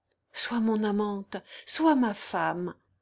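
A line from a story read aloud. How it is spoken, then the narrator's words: Muffled cry. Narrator (French): s'écria-t-il enfin d'une voix étouffée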